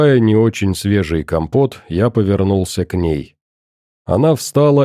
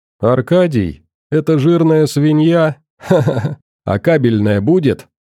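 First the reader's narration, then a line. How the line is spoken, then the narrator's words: Loud laughter. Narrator (Russian): расхохоталась во весь голос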